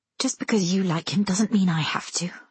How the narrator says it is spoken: I mutter

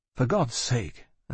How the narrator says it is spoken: I said

